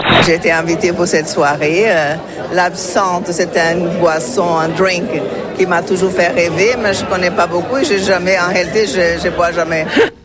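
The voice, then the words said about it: Swiss French accent. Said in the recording (French): “j'adore votre accent et je trouve ça génial ... quand je viens en Suisse, il y a une chose que j'adore, c'est l'accent”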